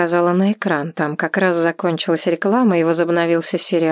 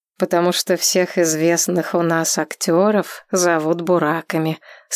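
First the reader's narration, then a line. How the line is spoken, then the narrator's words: Plain. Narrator (Russian): сказал Юсуф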